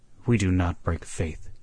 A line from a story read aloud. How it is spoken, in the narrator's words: said Hagthorpe firmly, so firmly that he quieted them